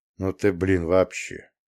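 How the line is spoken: Wary drawl. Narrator (Russian): протянул я с опасением

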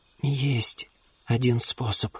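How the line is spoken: Muttering. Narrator (Russian): пробормотала Луделла

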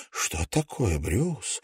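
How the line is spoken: Whisper. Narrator (Russian): прошептала она

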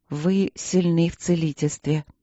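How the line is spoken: Absent-minded. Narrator (Russian): рассеянно проговорила принцесса

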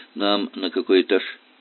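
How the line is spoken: Plain. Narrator (Russian): спросил Зарубин

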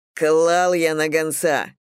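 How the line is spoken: Snapping retort, brother. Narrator (Russian): огрызнулся брат

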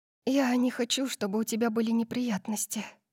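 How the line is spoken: Whisper. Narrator (Russian): прошептала я

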